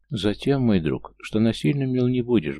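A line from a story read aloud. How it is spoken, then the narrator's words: Sad, surprisingly calm. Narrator (Russian): грустно и на удивление спокойно проговорил я вслух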